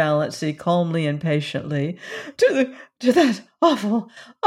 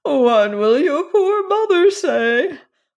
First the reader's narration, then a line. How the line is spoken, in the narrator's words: moaned Cousin Georgiana